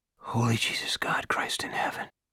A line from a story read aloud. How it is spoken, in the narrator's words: Pete Salbers whispered